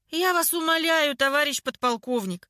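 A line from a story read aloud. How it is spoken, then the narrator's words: Joyless laugh. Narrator (Russian): невесело рассмеялась Клава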